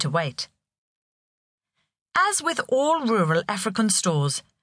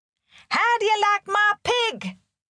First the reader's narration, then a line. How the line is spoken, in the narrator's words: shouted Ivy